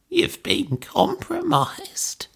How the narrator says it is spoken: she croaked

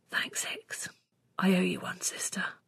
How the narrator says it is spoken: I let out a huge breath and whispered

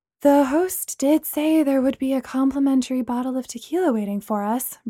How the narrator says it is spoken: Bree said sleepily

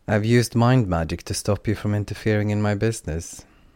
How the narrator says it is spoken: Lydica said flatly

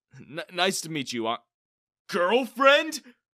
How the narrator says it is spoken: I exclaimed

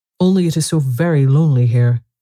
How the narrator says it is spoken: Alice said in a melancholy voice

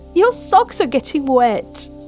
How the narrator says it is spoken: Mel laughed

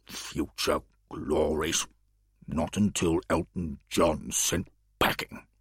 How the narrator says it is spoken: The Alderman muttered

